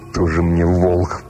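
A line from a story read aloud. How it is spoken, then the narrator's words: Snorting to himself. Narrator (Russian): фыркнул про себя Жихарь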